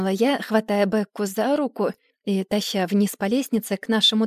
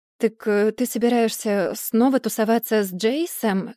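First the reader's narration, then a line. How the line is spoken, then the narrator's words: Plain question. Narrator (Russian): спросил я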